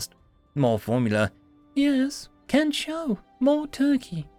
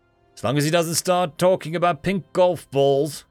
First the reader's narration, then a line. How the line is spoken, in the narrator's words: Addix grumbled